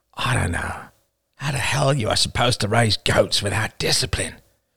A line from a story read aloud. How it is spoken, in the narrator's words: A father grunted